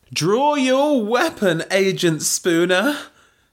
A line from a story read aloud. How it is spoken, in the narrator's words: shouted Belinda